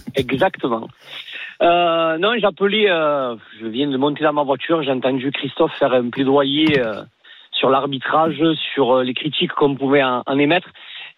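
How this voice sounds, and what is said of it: Northern French Lille accent. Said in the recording (French): “à mon accent, vous allez très vite comprendre quelle équipe je supporte. ... Lille.”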